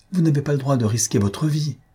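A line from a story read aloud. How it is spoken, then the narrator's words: Pleading, man. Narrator (French): reprit son mari d'un ton suppliant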